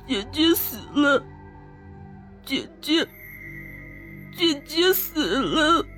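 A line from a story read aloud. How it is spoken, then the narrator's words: Crying child muttering. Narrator (Chinese): 小孩是一边哭一边念叨着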